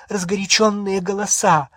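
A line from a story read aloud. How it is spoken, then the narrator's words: Breathless exhale. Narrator (Russian): выдохнула миссис Уизли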